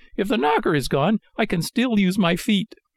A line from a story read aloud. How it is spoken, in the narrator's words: cried Pinocchio, blind with rage